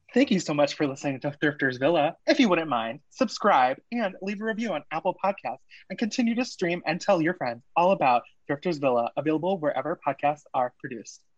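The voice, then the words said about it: Polished presenter voice. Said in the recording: “put on my presenter voice ... Presenter voice ... It's a good voice.”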